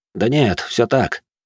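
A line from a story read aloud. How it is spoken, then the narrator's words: Heavy sigh. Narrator (Russian): тяжело вздохнул торговец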